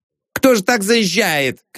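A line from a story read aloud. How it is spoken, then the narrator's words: Horrified shouting. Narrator (Russian): кричал он, ужасаясь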